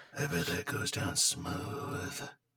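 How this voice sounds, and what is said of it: Creepy put-on voice. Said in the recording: “this voice that you're doing ... creepy voice”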